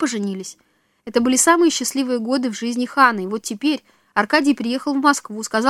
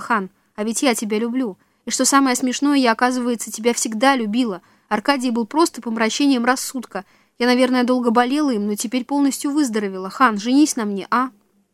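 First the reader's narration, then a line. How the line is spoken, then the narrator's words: Surprised, slightly frightened. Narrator (Russian): посмотрела на него совсем другими глазами, чуть удивленно, даже испуганно, и сказала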